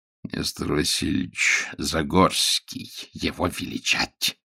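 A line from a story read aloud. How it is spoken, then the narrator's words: Creaky amused voice. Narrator (Russian): Скрипучим голосом и тоже по-русски отвечал китаец, которого, кажется, немало позабавил незадачливый господин Ковальский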